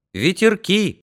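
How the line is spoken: Cheerful. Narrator (Russian): Алька весело сказал

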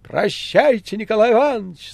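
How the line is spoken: Shouting. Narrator (Russian): закричала Маргарита

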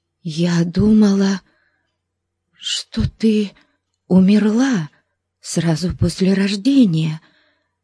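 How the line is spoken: Halting, stammering. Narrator (Russian): проговорила она, запинаясь

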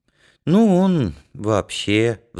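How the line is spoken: Sighing. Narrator (Russian): вздохнул Янка

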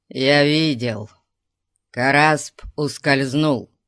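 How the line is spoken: Growled. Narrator (Russian): прорычал Зирас

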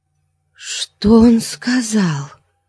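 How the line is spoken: Whisper. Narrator (Russian): шепнула

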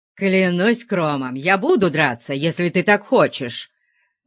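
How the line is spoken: Growled. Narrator (Russian): зарычал Конан

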